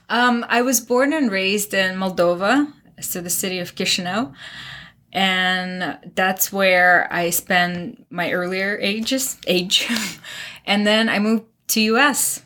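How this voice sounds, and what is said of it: Non-American foreign accent. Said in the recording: “from your accent, it's pretty obvious you're not from America originally”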